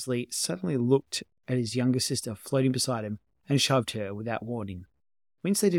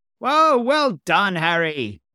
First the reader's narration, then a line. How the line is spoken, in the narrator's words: cried Gomez